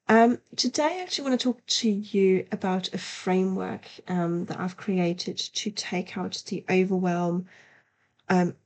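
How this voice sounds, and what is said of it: Slightly congested voice from a cold. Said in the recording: “my voice sounds a little bit funny, um, I'm just at the back end of a cold”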